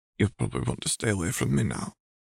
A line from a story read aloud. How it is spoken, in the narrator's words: Remus whispered